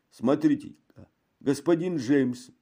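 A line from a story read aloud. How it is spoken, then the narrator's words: Exclaimed. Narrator (Russian): воскликнул хозяин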